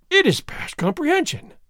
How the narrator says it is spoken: Don Diego exclaimed

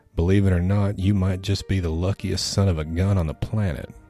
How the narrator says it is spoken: said in a thick southern drawl

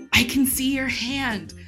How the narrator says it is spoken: Rey whispers

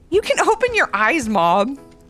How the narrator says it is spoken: Levi laughed

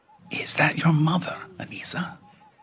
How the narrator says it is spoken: whispers Rachel

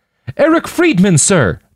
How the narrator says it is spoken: the young man cried back

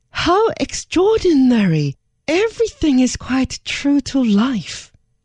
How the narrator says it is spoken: Her Majesty even more surprise, to exclaim

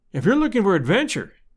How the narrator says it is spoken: I cried

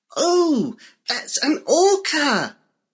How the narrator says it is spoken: Buffy said excitedly

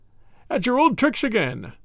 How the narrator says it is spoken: he laughed

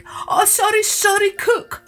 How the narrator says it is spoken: wailed the king

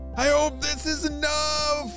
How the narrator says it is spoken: Jaden shouted to Ava

